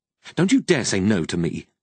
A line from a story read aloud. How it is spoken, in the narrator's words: she replied harshly